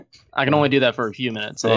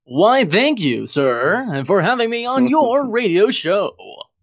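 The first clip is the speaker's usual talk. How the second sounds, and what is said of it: Radio announcer voice. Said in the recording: “your beautiful radio voice? ... Give us your best radio intro.”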